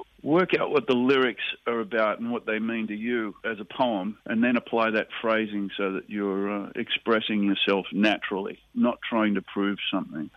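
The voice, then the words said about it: Australian accent. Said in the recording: “not losing my Australian accent”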